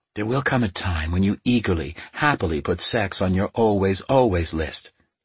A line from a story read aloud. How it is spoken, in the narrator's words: Keeley whispered